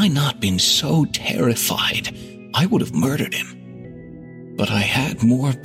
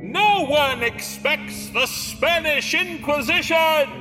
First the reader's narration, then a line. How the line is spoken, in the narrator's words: he cupped his hands over his mouth and yelled